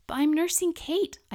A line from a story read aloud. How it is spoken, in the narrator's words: pleaded